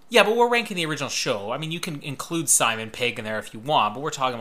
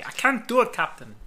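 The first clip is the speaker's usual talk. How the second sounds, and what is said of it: Weird put-on accent. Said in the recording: “I don't know what that accent was. ... All your accents sound weird.”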